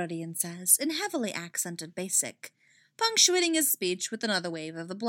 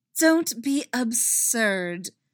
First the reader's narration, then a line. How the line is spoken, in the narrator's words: Hera says, making sure that her voice drips with condescension